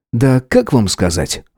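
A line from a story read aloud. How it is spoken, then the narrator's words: Wry snort. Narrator (Russian): хмыкнул я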